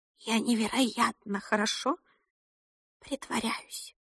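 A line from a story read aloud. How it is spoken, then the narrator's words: Whisper. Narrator (Russian): прошептала она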